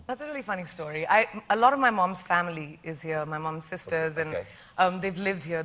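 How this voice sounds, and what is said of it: Mixed, hard-to-place global accent. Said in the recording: “People think my accent is so confused that so am I. I'm not sure anymore what it is. It's a global accent.”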